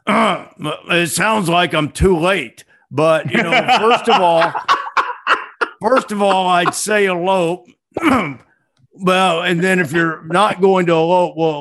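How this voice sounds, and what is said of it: Imitates another person's voice, poorly. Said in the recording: “my bad Mike Leach imitation”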